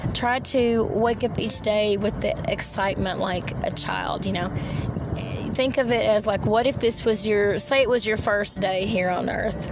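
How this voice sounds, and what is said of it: Tired-sounding voice. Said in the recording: “I'm sorry if I sound tired ... I'm pooped. I'm tired”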